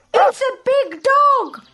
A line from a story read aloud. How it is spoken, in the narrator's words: the birds shout